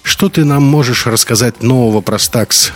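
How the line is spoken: Scoffing grunt. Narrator (Russian): хмыкнул поляк

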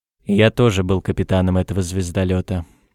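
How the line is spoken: Gloomy heavy man's statement. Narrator (Russian): мрачно сообщил грузный, темнолицый человек

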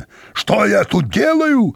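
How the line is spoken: Full-force roar. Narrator (Russian): взревел он изо всех сил

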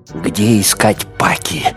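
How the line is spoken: Breathless exhale. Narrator (Russian): выдохнул Кирк

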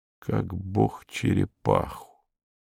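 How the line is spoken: Muttered. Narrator (Russian): пробормотал Иван Иванович

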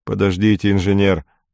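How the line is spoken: Irritated. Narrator (Russian): раздраженно сказал офицер

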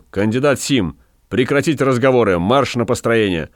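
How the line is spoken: Barked. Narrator (Russian): Гай только рявкнул

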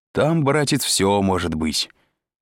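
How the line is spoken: Cheerful. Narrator (Russian): сказал Изя весело

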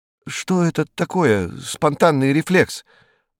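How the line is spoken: Timid question. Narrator (Russian): робко спросил Костенко

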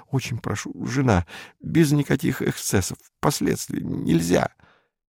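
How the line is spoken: Commandant muttering. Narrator (Russian): Комендант бормоча

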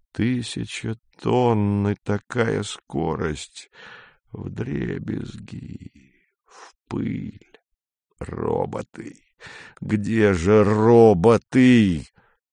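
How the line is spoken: Hoarse. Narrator (Russian): Помощник сказал хрипло

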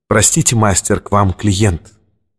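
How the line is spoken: Quiet, into empty room. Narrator (Russian): Портье негромко сказал в пустоту обширного помещения

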